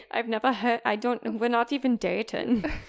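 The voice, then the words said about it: Bad put-on German accent. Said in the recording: “my bad German accent”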